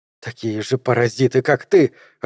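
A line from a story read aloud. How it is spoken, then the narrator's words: Growling. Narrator (Russian): рычала она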